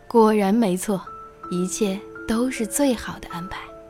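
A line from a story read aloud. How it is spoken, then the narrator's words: Hearty laughter. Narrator (Chinese): 国王忍不住哈哈大笑，说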